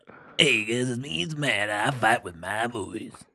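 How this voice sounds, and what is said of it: Sleazy morning radio DJ voice. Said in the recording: “You sound like the worst radio DJ in the morning. ... It started as Casey Kasem and then turned into a sleazeball.”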